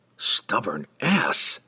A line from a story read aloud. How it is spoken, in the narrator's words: he whispered harshly